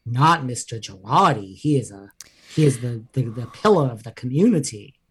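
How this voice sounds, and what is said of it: Imitates another person's voice. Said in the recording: “my Erica impression”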